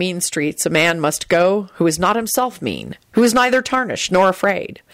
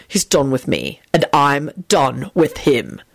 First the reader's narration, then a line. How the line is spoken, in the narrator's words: he added firmly